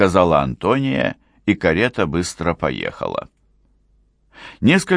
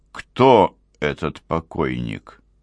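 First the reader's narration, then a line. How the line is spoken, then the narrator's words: Quiet question. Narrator (Russian): спросил граф тихим голосом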